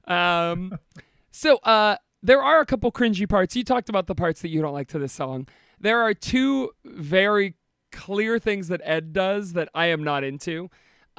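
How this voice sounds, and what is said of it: Strained voice, losing it. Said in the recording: “I'm losing my voice for some reason, even though I'm not sick ... my voice is going to crack”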